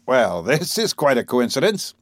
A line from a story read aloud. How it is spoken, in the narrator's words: They laughed, and exclaimed